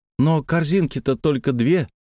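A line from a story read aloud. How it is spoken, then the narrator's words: Timid remark. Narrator (Russian): робко заметила Лена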